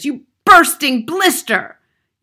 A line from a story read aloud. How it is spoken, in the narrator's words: yelled the Trunchbull